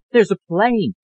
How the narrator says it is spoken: Alice cried

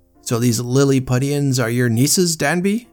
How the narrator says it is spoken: exclaimed Sir John

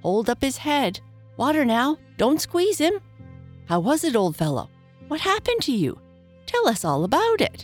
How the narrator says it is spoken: Last came a little feeble, squeaking voice

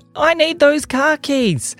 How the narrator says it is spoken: yelled their mummy

